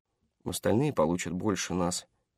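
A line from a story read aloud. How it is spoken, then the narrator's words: Quiet. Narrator (Russian): тихо сказал Брэд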